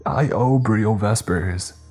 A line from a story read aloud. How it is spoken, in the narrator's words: he yelled out, grunting in pain